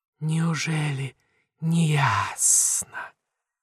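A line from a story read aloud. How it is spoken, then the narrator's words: Quiet question. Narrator (Russian): тихо спрашивает Мантия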